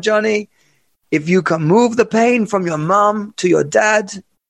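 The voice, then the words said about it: Attempted accent voicing his mother. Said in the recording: “not very good at accents. I'm not even sure I should should try it... What am I? T- what is this accent?”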